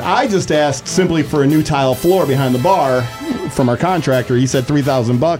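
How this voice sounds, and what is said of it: Buffalo accent. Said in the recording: “I miss your Buffalo accent.”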